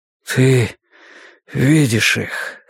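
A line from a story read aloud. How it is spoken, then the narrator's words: Hoarse. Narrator (Russian): хрипло сказал я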